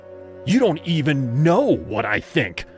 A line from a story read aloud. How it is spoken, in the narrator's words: screamed